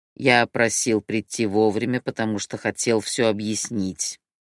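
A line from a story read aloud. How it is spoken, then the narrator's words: Grumbling leader. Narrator (Russian): проворчал лидер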